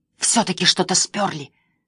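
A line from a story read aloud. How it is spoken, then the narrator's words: Hissing. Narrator (Russian): зашипела Эмили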